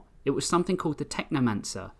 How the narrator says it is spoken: they blurted out, unable to hold it and begging for his understanding

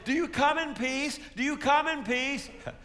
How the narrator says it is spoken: the people shout out

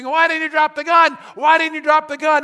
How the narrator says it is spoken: the policeman ... screaming

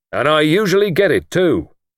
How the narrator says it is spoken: said, chuckling

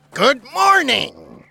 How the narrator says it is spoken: the man chirped

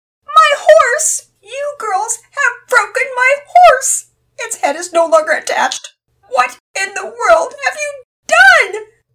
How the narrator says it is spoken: Penelope screeched so loudly that part of what she was saying was almost unintelligible

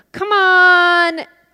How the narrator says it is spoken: she yells

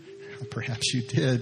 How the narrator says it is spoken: said, laughing

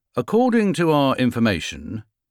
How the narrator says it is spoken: he said

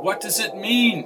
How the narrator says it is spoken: She called out

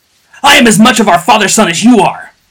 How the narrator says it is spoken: bellowed Jocha between blows

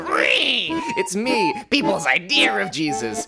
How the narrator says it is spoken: he screeched

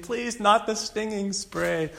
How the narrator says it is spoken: pleading

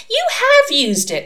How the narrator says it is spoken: snapped

